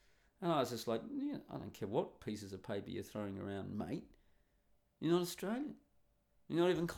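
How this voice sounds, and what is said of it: Usual voice. Nothing is said of it.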